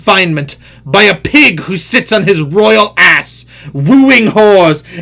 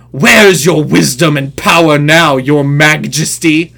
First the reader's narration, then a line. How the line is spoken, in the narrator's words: growled Grignr